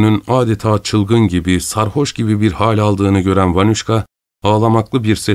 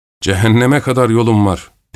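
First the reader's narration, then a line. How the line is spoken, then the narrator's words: Shouted. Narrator (Turkish): diye bağırdı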